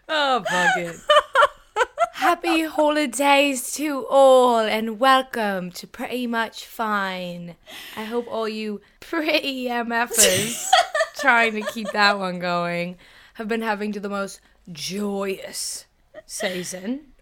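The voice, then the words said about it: Put-on British accent. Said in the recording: “British accent. Like, don't do a British accent. Don't do a British accent. ... Hello, I'm ... and I'm British.”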